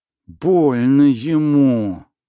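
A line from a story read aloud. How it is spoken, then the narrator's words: Snake-like hiss. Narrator (Russian): зашипев змеей, Устинья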